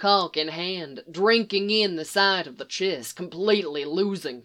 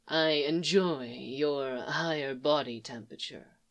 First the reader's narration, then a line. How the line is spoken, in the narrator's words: he murmured